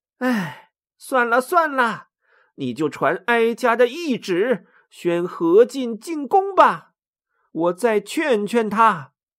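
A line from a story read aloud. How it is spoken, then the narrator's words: Sighing. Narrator (Chinese): 何太后叹了口气说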